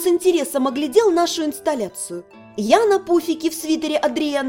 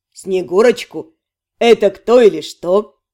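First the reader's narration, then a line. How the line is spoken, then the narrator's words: Snorting. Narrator (Russian): Ремир фыркнул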